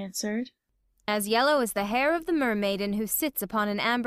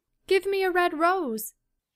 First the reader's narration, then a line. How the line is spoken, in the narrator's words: she cried